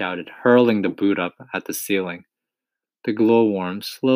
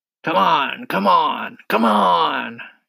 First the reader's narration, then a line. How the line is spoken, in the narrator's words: shouted the centipede